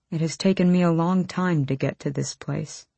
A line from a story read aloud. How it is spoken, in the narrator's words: he said a bit quietly